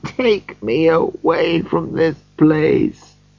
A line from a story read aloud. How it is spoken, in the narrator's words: said Scrooge in a broken voice